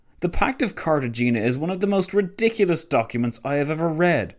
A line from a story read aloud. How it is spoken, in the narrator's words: spat Orlando